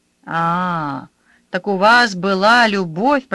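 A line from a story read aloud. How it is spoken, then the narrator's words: Trained singing voice. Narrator (Russian): пропела мачеха поставленным голосом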